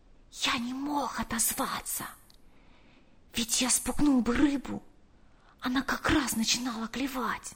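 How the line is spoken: Whispered. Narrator (Russian): прошептал

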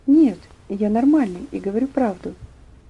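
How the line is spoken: Quiet, trembling voice. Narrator (Russian): Тихим, дрожащим голосом он ответил

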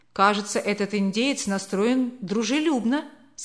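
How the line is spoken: Plain. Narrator (Russian): сказал господин Хапкинс

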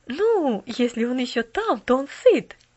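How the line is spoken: Cheerful interruption. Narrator (Russian): весело прервала миссис Керю

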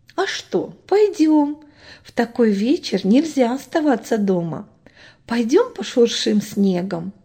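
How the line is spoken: Mother replying. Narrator (Russian): отозвалась мама

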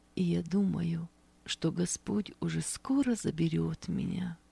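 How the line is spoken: Quiet but confident. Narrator (Russian): негромко, но уверенно произнесла она

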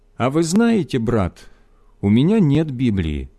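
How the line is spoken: Pensive, to himself. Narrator (Russian): задумчивым голосом, словно обращаясь более к себе, чем к нам, сказал

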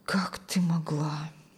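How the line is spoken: Strained, pained. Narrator (Russian): Все, что он мог выдавить из своей наполненной болью груди

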